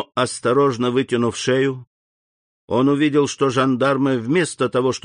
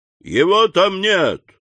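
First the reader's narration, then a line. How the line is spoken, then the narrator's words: Loud shout. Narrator (Russian): унтер-офицер громко крикнул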